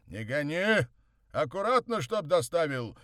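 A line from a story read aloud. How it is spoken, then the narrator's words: Shouted after someone. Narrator (Russian): крикнул вслед Морозов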